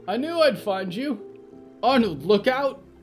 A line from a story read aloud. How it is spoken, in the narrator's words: Clara screamed